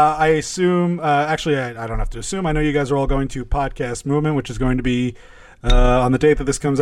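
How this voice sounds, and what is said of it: Usual voice. Nothing is said of it.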